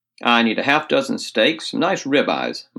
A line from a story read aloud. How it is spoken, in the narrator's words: my father said